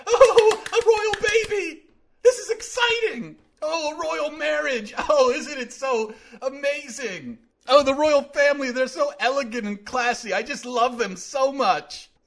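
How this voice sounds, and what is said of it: Gushing, fawning royal-obsessed voice. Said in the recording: “That's my impression of America, collectively.”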